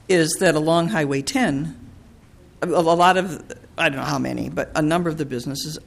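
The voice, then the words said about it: Strained voice, close to giving out. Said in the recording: “I'm going to lose my voice, I'm sorry”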